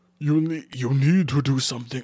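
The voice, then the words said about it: Character voice with put-on accent. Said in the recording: “I don't know why he has this accent. I don't know what to give him his accent.”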